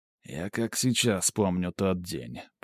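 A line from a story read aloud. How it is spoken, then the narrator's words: Mumbling. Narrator (Russian): пробормотал он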